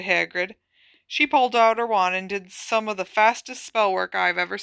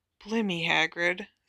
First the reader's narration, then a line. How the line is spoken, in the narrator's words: said Ron quietly